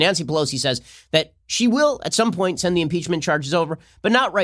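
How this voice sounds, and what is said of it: Usual voice. Nothing is said of it.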